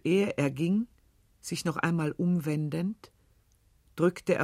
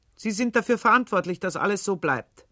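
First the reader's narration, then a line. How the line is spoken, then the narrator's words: Stern. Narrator (German): streng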